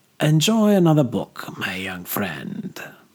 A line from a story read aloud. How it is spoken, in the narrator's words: purred Señor Recuadador